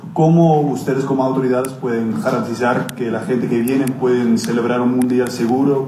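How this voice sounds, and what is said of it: Good Spanish with foreign accent. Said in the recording (Spanish): “con un buen español, con un acento distinto”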